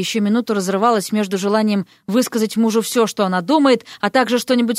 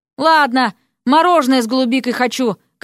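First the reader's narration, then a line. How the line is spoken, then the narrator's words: Calling out after someone. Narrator (Russian): крикнула она вслед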